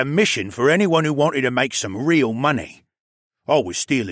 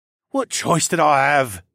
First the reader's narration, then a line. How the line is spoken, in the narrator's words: He sighed